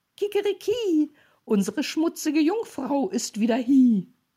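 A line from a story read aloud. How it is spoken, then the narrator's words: Rooster crowing. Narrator (German): der Hahn auf dem Brunnen, als er sie sah, rief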